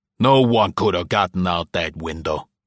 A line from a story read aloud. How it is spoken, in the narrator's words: he rasped at them